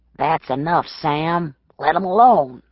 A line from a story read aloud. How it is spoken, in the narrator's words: someone called in a low voice